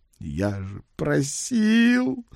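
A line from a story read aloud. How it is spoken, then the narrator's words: Squeaky exhaled. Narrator (Russian): на выдохе пропищал заместитель кого-то там по нефтегазовой политике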